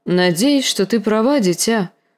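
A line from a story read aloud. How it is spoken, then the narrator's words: Sighing. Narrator (Russian): вздохнул дядя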